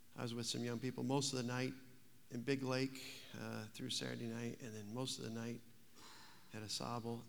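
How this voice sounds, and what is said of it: Tired, worn-out voice. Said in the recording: “my voice is running on empty”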